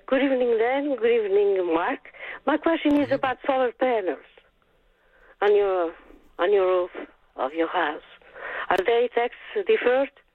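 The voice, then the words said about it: Accent that is hard to follow. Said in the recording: “I didn't quite catch what it was. The accent threw me off a little there.”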